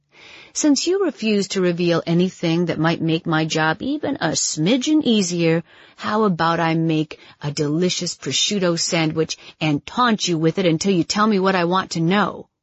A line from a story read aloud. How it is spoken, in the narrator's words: Simon laughed